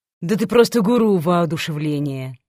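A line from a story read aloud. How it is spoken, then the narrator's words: Snide grumble. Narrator (Russian): проворчала с ехицей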